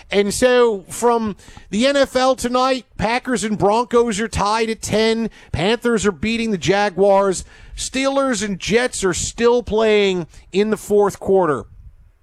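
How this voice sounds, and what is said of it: Put-on Pennsylvania accent. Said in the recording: “why is he doing his Philly accent? ... No, it's a greater Pennsylvania accent. It's Pittsburgh. It's Philadelphia.”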